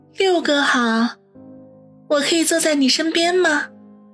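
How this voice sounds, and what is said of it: Cloyingly sweet flirtatious voice. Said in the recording (Chinese): “用甜得发腻的声音说道”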